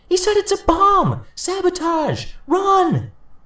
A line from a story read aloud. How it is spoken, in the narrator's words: A woman screamed the words